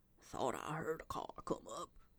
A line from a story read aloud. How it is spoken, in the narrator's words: he said in a low tone